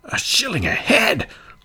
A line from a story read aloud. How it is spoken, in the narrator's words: cried the citizens